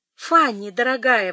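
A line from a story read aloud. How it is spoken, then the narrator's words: Exclamation. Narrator (Russian): воскликнул Эдмунд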